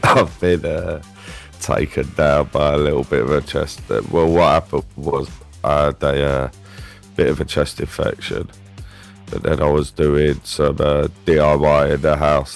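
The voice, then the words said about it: Groggy, ill-sounding voice. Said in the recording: “a very, very groggy sounding, a very ill sounding”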